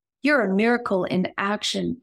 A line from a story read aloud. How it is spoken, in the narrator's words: exclaimed the little girl